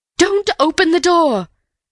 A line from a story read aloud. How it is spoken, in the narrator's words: cried Mrs